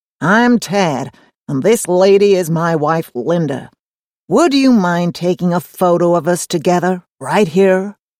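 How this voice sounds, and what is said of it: Drawling American accent. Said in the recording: “in a drawling American accent”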